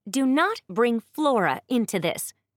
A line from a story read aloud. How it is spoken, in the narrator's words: Princess Constance almost yelled at her brother